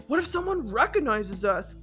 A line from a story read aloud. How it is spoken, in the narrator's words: Gavin grumbled